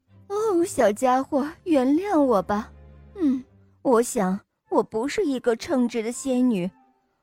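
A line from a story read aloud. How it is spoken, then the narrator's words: Helpless sigh, apologetic. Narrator (Chinese): 仙女无奈地叹了口气，抱歉地说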